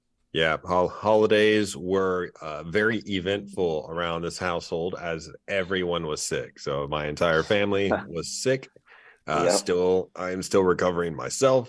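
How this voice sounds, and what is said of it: Slightly nasal, congested voice. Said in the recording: “I might sound a little out of breath or a little nasally”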